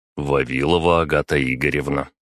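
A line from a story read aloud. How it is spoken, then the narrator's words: Calm answer. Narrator (Russian): спокойно ответил я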